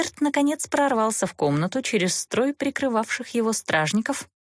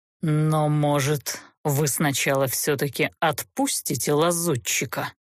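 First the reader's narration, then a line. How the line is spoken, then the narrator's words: Icy, seething fury. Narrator (Russian): Ледяным тоном, в котором кипело бешенство, осведомился змей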